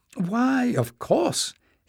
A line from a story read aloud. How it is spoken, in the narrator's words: exclaimed Joseph